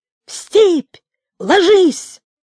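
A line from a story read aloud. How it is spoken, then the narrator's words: Terrible shout. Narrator (Russian): крикнул ужасным голосом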